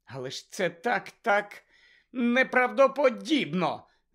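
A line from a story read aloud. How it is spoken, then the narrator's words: Despairing exclamation. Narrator (Ukrainian): з розпачем вигукнула Герміона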